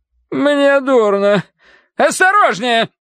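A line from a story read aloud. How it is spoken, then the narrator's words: Barked. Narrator (Russian): рявкнула она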